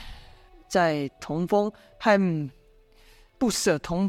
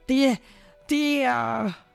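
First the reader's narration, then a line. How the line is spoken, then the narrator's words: Wailing in grief. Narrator (Chinese): 童风知道童飞死，口中嚎啕大哭，说道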